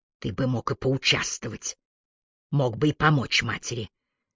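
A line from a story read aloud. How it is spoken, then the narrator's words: Hissing. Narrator (Russian): Маргарет прошипела сыну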